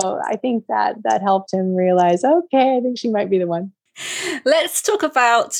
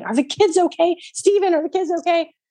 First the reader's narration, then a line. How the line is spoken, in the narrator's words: his wife leaps out of her dead sleep shouting